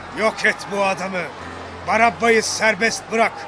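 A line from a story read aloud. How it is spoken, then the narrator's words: Crowd shouting. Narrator (Turkish): diye bağırdılar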